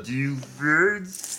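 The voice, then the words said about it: Bad Kermit the Frog voice impression. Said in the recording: “my horrible Kermit impression”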